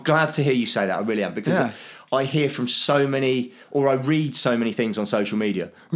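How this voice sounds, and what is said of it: Regional English accent. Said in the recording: “I'm a United fan. Can you not tell by the accent?”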